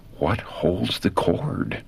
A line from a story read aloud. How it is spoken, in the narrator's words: Again, in whispered anguish, the words were breathed